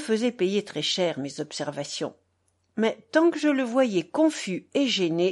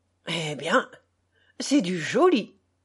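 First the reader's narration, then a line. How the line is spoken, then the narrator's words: Flustered exclamation. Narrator (French): s'exclamait tout troublé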